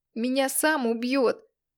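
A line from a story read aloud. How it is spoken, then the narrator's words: Sobbing. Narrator (Russian): рыдал Костик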